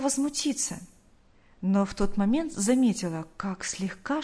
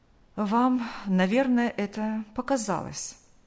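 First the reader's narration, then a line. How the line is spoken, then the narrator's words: Calm doctor. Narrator (Russian): Врач спокойно произнес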